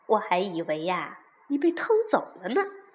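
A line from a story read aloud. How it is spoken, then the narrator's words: Laughing. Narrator (Chinese): 妈妈一边笑一边说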